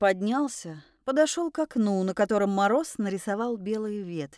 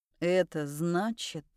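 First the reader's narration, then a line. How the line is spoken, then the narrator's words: Quiet. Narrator (Russian): сказал он тихо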